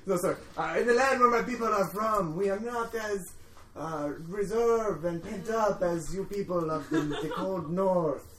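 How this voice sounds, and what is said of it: Put-on foreign accent. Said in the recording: “I am very sensual because I have an accent.”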